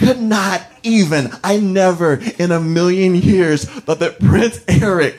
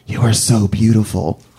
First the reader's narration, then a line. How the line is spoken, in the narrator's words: he puts his mouth close to my ear, and he whispers